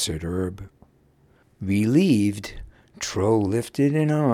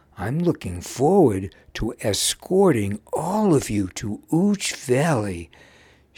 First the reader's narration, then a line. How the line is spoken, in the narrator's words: happily told